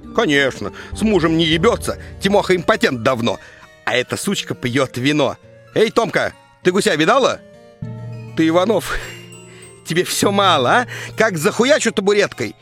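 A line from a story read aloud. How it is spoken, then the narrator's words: Drunk neighbor yelling. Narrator (Russian): вопит пьющая соседка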